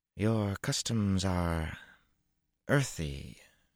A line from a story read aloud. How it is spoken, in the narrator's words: Tuan said in a dry voice